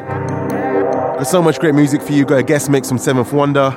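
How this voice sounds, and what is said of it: Congested, sick-sounding voice. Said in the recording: “As you can tell by my voice, ... I've come down with a nasty little cold”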